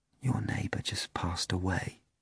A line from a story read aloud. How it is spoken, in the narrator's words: Praskovya Fyodorovna whispered, unable to overcome her natural truthfulness and kindness